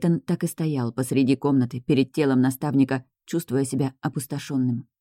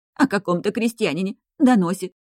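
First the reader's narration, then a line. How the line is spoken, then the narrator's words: Maid sobbing again. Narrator (Russian): служанка опять зарыдала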